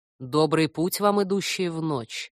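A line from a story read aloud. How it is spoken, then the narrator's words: Deep bass demon voice. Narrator (Russian): отозвался демон густым басом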